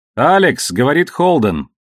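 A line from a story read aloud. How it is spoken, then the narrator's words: Booming voice over speaker. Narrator (Russian): прогудел голос с панели связи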